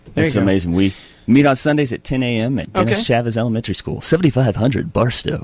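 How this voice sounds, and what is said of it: Polished radio announcer voice. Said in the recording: “Good radio voice.”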